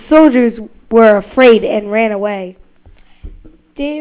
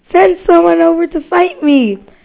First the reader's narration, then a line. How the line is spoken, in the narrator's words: called out